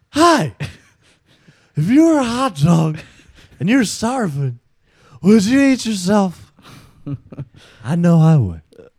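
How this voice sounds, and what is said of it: Imitates another person's voice. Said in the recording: “your impersonation ... Will Ferrell being Harry Carey”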